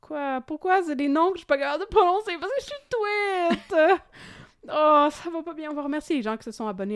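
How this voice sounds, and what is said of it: Usual voice. Nothing is said of it.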